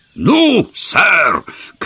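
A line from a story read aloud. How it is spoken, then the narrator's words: Hoarse, agitated shout. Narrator (Russian): крикнул он хриплым от волнения голосом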